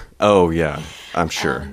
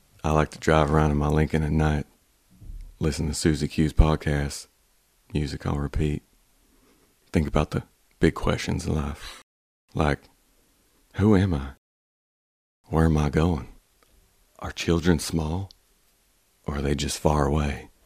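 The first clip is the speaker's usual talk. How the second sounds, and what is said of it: Exaggerated Texas drawl, Matthew McConaughey impression. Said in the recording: “slow Southern drawl ... a slightly exaggerated Texas accent ... Like Matthew McConaughey”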